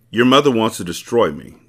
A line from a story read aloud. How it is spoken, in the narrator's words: Diallo said in a flat voice